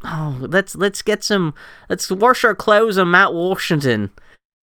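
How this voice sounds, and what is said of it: Poor put-on Pittsburgh accent. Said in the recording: “he's got like this thick Pittsburgh accent ... I can't even do a Pittsburgh accent because it's so fucking off the wall ... you are terrible at accents ... the Pittsburgh one just sounds like you're out of your fucking mind”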